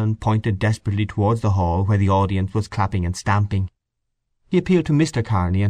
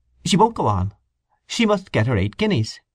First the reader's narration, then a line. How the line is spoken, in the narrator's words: Kearney said curtly at intervals